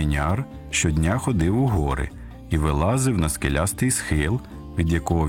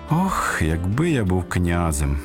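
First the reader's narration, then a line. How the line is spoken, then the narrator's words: Sighing. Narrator (Ukrainian): зітхнув каменяр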